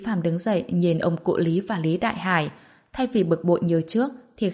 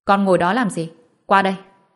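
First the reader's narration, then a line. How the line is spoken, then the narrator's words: Stern. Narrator (Vietnamese): Lý Đại Hải nghiêm nghị nói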